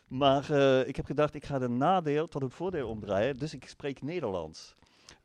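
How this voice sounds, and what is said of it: German speaker's accent in Dutch. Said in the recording (Dutch): “Ik spreek Nederlands, duidelijk met accent”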